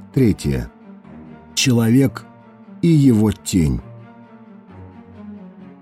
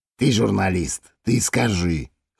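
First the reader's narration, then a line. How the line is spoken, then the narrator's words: Policeman's snort. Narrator (Russian): хмыкнул полицейский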